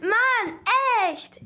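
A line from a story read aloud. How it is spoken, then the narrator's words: Loud, annoyed. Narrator (German): ärgerte sich Ben laut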